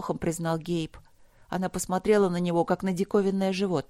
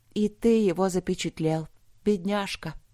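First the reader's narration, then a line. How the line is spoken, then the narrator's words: Sad. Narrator (Russian): повторила Вилда грустно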